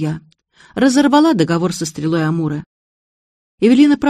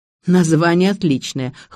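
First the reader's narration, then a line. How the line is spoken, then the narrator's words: Snorting. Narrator (Russian): хмыкнул Дегтярев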